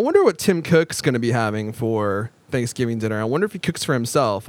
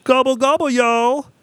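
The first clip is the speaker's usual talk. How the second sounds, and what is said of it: Tim Cook impersonating a turkey. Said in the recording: “impersonating Tim Cook, impersonating a turkey”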